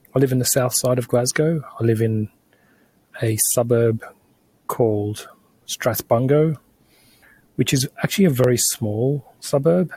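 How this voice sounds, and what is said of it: Australian accent. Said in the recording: “You hear from my voice that I'm Australian”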